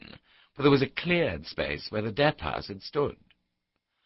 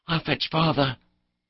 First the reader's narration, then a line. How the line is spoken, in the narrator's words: Saban whispered